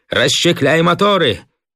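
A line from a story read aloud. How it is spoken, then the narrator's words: Shout. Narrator (Russian): крикнул он Кривоногову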